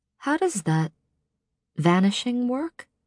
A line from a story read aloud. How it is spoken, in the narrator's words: I said softly